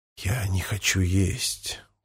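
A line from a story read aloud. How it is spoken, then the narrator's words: Whispered. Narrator (Russian): прошептал Помпилио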